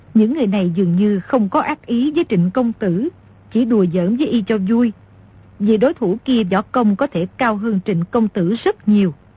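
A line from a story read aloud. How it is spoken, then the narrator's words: Smiling, amused. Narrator (Vietnamese): Cửu Nạn mỉm cười nói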